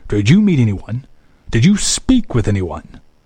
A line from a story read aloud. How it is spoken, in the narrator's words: he asked sharply